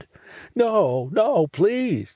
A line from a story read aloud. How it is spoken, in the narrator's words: he pleads